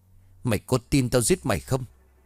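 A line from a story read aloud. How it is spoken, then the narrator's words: Harsh, menacing voice. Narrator (Vietnamese): Hào gằn giọng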